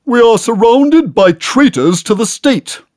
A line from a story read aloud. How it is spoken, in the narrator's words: loudly booms